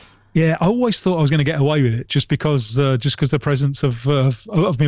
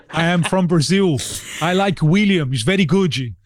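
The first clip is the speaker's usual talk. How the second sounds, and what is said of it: Put-on Brazilian accent. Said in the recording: “I just played the Brazilian card ... was that another accent? ... It was.”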